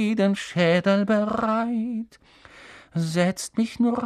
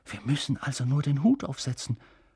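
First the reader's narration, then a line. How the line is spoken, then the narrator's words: Whispered. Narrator (German): flüsterte Ron Harry zu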